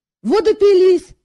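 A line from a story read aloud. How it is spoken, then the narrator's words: Indignant exclamation. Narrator (Russian): негодующе воскликнул Жак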